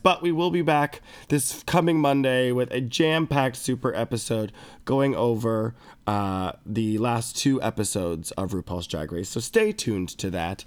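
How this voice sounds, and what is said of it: Stuffy, nasal, congested voice. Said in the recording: “I've been sick. I don't know if you can tell from my voice ... it's very stuffy and nasally ... sinus congestion”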